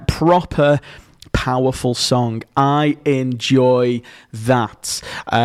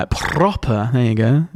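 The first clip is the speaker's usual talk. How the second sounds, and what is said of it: Put-on Received Pronunciation. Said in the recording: “Received pronunciation for those of you who enjoy language and accent.”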